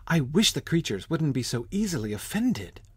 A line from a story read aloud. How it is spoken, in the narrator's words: pleaded poor Alice in a piteous tone